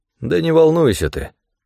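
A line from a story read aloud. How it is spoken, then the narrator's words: Soothing yet indifferent, rote. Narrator (Russian): Джо говорил успокаивающим и вместе с тем равнодушным тоном, словно повторял заученный текст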